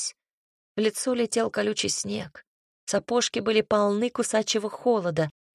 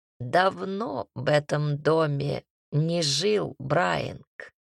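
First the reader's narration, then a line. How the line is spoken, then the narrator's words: Creaky voice. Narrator (Russian): проскрипела Шарлотта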